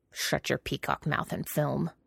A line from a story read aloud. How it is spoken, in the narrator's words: Jiang Cheng growled